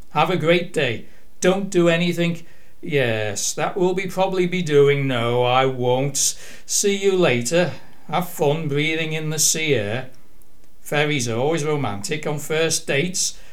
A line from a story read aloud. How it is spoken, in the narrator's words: Abby shouted back jauntily